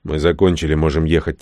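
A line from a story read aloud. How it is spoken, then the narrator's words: Quiet. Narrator (Russian): тихо сказал Рон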